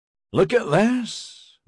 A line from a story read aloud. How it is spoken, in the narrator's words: Maxon exclaimed